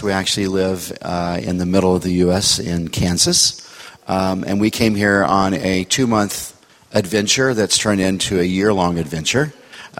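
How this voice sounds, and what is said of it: American accent. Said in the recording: “You might be able to tell from my accent that I don't sound like you. We're from the U.S.”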